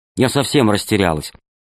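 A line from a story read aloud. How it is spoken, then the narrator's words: Angry. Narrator (Russian): ответил сердито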